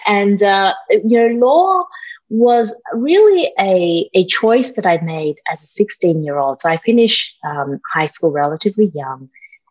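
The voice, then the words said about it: Australian accent. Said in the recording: “I grew up in Australia, that's the accent.”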